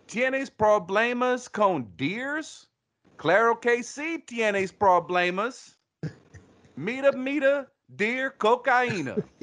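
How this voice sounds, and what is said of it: Spanish with Southern country accent. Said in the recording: “Texas, Spanish with a country accent, a Southern accent ... That's terrible”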